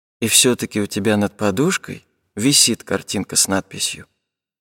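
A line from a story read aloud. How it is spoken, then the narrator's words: Sad and quiet. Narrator (Russian): сказала она совсем грустно и тихо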